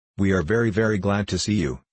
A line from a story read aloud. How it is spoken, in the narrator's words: she said